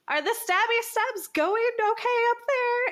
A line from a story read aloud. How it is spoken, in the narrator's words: she's going to shout out to Zephyr